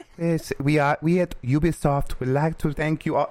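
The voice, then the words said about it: French accent, tiny little voice. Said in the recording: “That's my my French game developer accent ... that tiny little voice ... it is a very cool accent”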